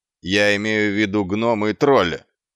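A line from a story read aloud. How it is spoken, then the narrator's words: Barked. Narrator (Russian): рявкнул Квирк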